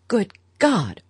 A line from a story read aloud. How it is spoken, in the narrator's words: Archer exclaimed